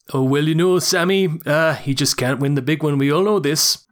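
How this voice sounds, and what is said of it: Put-on Newcastle accent, slightly Swedish-sounding. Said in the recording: “can you do a Newcastle accent? It's like an impossible one to do ... That's not a million miles away ... Not bad ... That's not quite a Newcastle, but that's so much fucking better than I could do it ... It was like Newcastle mixed with Swedish in a weird way”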